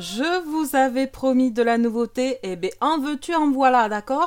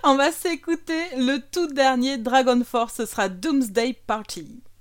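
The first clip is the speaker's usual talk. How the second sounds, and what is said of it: Put-on English accent. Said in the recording (French): “mon super accent anglais”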